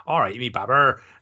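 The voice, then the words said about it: Thick West Country accent. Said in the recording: “really bad, really thick West Country accent”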